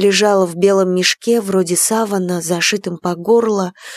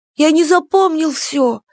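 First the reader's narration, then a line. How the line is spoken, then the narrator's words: Frightened. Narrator (Russian): испуганно сказал Степка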